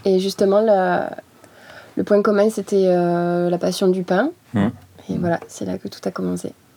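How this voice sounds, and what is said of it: Slight southern French accent. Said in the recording (French): “t'as quand même un petit accent du Sud”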